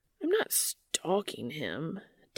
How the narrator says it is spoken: Dean grumbles pathetically

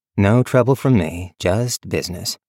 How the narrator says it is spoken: said evenly

